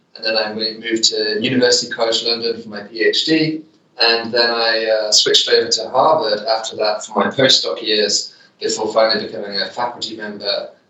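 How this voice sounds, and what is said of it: British English accent. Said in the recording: “I grew up in the UK, hence the accent”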